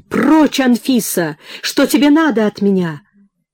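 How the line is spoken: Sharp anguished shout. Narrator (Russian): резко крикнул с болью и надрывом

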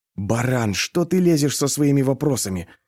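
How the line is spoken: Whisper. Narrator (Russian): прошептал я Алёше

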